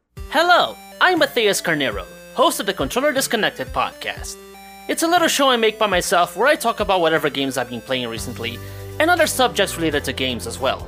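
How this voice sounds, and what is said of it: Speaks with an unusual accent. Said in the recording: “my weird accent”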